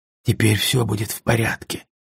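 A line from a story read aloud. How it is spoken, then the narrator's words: Whisper. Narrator (Russian): прошептал я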